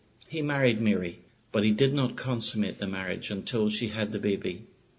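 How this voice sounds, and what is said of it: Lilting Irish accent. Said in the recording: “beautiful lilting Irish accent”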